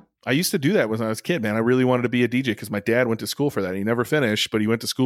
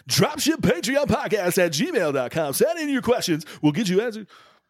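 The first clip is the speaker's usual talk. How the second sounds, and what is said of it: Radio announcer voice. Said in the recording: “You got your radio announcer voice on today.”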